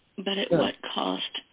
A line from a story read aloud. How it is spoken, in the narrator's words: She murmured aloud